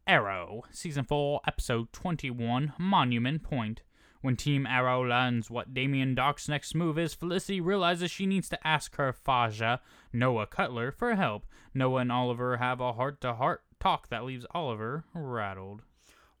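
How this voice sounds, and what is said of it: Synopsis read in put-on accent. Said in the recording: “I started reading it with an accent”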